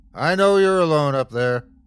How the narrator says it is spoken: the bear bellowed

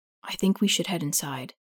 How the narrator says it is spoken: Hugh says softly

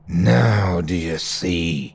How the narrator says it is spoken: Terry's voice hissed

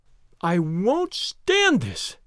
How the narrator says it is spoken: cried Daisy

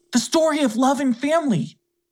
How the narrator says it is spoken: He cried out to Clarabelle

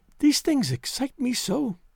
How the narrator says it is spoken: she whispered

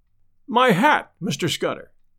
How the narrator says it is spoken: stammered

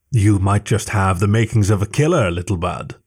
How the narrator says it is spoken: Sakara chuckled

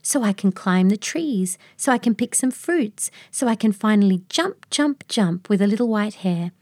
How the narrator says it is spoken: Luna exclaimed

